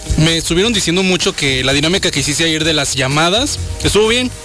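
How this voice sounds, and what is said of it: Radio announcer-like voice. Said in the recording (Spanish): “Tienes voz de locutor, güey.”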